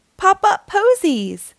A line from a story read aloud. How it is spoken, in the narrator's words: cries Daisy